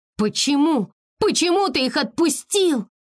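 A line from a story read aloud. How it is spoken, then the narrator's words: Desperate shout. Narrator (Russian): С отчаянием закричала Текно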